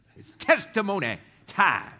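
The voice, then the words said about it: Put-on Southern accent. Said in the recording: “you can't say that without some kind of Southern accent.”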